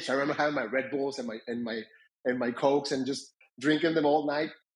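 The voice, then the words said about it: Non-native English accent. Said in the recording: “as you can tell by my accent, English is not my first language”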